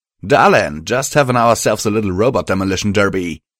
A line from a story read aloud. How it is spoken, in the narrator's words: he called out